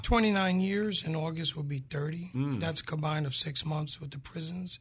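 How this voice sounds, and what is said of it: Bronx New York accent. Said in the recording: “you were originally from the Bronx, is where you get that that accent from.”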